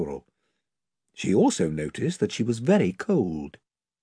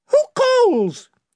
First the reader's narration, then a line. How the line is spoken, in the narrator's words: it piped